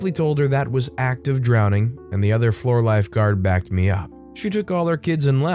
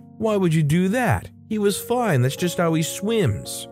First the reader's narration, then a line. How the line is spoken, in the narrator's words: yelling